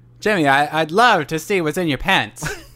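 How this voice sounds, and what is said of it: Put-on mid-Atlantic accent impression. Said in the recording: “Can you do a Cary Grant? I'm gonna try one here. I'm attempting it... It's that mid-Atlantic accent.”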